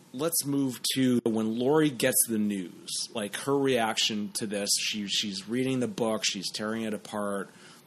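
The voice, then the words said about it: Hoarse, husky voice. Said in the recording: “I think I'm getting sick because my voice is going in the course of this podcast ... that little bit of whiskey voice going”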